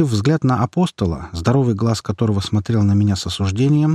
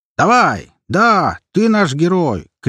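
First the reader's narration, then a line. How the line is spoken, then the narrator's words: Soldier shouting. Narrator (Russian): крикнул кто-то из бойцов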